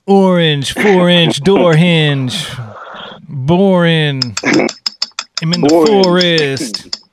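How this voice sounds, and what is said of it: Put-on East Coast American accent. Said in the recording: “Why'd I just give them an East Coast accent? ... I don't know why I gave Eminem an East Coast accent”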